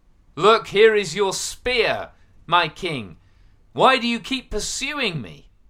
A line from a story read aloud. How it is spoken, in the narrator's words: called out